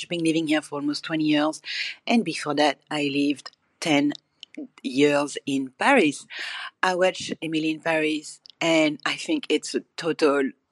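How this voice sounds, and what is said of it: French accent. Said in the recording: “as you can guess by my accent, I'm a little bit French”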